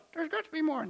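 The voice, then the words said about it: A put-on fake voice. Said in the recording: “fake voice”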